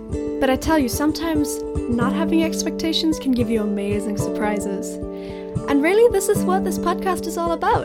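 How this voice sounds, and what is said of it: Mixed South African, Irish, German accent. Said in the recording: “my accent is South African, Irish, and half German, so it's not gonna be what you expect”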